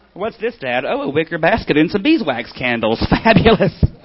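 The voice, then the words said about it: Camp toddler character voice. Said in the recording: “my gay toddler impression”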